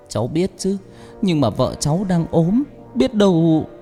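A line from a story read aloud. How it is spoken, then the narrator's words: Trembling voice. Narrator (Vietnamese): Chồng Thoa nói bằng giọng run run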